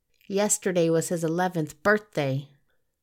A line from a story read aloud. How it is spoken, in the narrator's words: snarled Gabriel